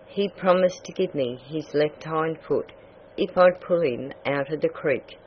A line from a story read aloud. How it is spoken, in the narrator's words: said Peter Mink